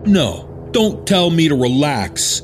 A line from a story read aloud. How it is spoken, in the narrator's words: the man shouted back